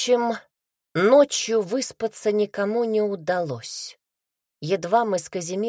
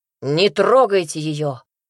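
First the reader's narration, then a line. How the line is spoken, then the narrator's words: Bark. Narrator (Russian): рявкнул на собравшихся людей Туманов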